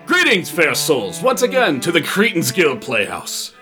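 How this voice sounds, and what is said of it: Put-on unidentifiable theatrical accent. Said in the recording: “What fucking accent is this? ... I don't know.”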